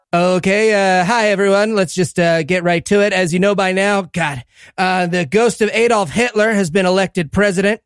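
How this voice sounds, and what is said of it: Impression of a podcast co-host. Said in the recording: “doing an impression of him roasting optimism”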